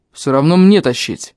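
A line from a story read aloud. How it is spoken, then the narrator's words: Big man snorting. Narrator (Russian): хмыкнул здоровяк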